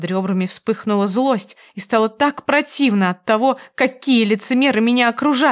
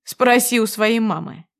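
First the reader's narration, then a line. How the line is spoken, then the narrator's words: Smirking snort. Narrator (Russian): хмыкнул он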